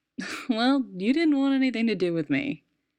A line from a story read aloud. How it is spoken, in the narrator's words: Steve laughed a little more and said